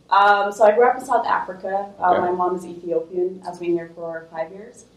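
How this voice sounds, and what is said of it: Noticeable non-local accent. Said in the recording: “your accent.”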